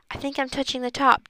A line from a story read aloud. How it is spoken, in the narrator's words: Dink whispered